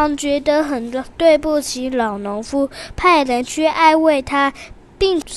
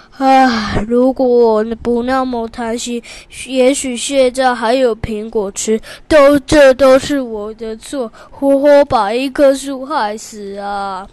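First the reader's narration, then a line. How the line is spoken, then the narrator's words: Sad sigh. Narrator (Chinese): 国王难过极了，叹了一口气说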